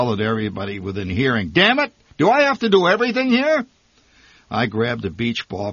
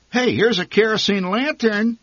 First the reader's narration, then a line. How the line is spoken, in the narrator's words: my mother said excitedly